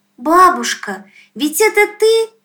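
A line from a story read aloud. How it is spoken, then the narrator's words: Shout. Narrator (Russian): крикнула она тогда Пахомовне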